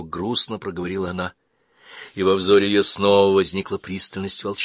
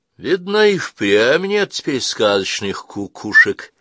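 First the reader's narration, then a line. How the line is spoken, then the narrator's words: Cheerful sigh. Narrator (Russian): весело вздохнул ражный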